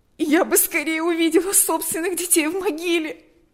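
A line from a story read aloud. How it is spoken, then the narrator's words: Sobbing. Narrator (Russian): рыдала она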